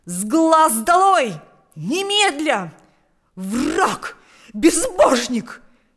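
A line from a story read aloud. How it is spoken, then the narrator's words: Furious shouting. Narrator (Russian): кричал он, гоня Павла из комнаты, словно дикого зверя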